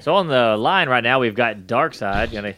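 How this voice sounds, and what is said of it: Strip club announcer voice. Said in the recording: “his stripper announcer voice just kicked in”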